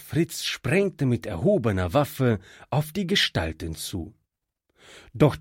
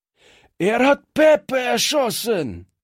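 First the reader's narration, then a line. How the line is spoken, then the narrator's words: Thug shouting. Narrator (German): schrie einer der Strolche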